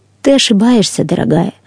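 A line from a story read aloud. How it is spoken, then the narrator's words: Calm reply. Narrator (Russian): спокойно ответила индивидуальность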